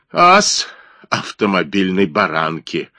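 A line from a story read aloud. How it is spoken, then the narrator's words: Mocking laugh. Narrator (Russian): издевательски засмеялся Блек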